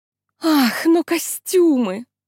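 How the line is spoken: Sighing. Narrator (Russian): вздохнул кто-то

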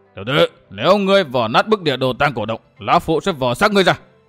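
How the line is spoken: Shouting. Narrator (Vietnamese): Miêu Sơn Nhất Quái quát

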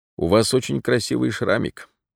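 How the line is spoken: Quiet. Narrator (Russian): Наконец он негромко сказал

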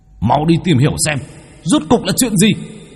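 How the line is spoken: Angry roaring. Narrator (Vietnamese): bốn kẻ kia gầm lên tức giận

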